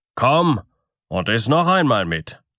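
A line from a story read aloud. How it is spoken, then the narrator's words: Calling out. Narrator (German): rief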